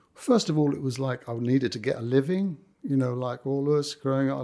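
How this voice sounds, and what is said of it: Cockney accent. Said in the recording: “I've lost my Cockney accent by now ... No, it's still there.”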